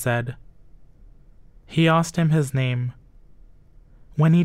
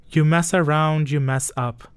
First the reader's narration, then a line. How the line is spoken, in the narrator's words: the president said and laughed